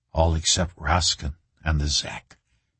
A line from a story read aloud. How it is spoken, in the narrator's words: Reacher whispered back